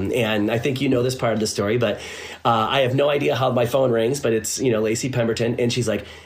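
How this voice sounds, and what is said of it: Usual voice. Nothing is said of it.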